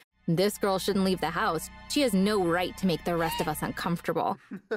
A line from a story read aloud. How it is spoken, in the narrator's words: him mocking me, saying